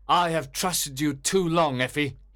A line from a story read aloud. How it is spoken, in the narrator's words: cried sternly